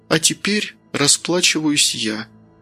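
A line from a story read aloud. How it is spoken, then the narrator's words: Quiet. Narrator (Russian): тихо произнесла Маргарита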